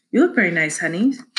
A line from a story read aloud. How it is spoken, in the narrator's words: said Mrs